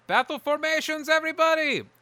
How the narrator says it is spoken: You hear Bryn yell from somewhere

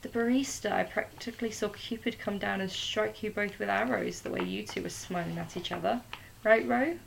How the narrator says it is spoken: said Mal

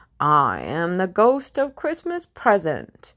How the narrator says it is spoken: A fierce voice boomed

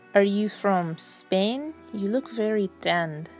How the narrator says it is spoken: asked

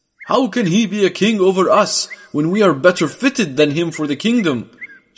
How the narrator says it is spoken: shouted one man

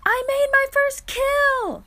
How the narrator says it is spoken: he yelled as he approached the camp

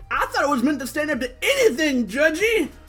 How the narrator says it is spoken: Spikes is yelling out

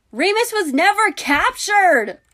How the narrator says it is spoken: Hermione hollered

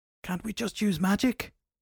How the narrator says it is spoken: Shelly asked, panting as they ran

